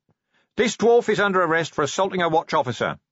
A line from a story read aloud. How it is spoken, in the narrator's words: he shouted